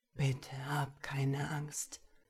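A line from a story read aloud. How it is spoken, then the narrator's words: Whispering into ear. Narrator (German): flüsterte die Gestalt an seinem Ohr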